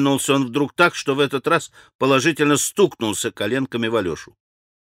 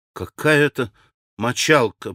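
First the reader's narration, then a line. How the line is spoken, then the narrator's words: Mutter. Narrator (Russian): пробормотал Алеша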